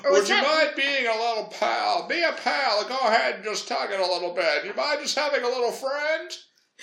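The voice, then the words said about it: Erotic Jimmy Stewart impression. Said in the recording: “Robin Williams doing an erotic Jimmy Stewart impression ... can you imagine Jimmy Stewart being erotic?”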